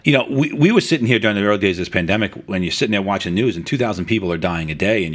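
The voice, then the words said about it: New York accent. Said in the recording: “I'm from New York. If you couldn't tell from my accent, right, which I've tried very hard to get rid of, but I failed.”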